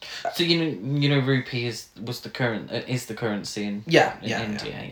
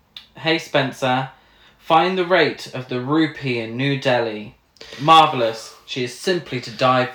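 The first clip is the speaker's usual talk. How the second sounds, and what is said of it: Put-on British accent. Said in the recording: “So it's a British accent.”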